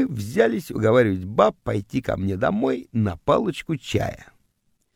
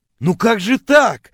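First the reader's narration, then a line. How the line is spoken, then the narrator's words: Offended wailing. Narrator (Russian): обиженно вопил я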